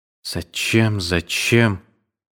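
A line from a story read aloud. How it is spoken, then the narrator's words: Sad repetition. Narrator (Russian): Она печально твердила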